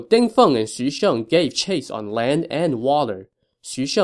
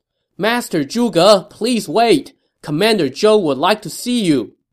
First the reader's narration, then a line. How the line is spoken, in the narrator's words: Ding Feng shouted from the front of his boat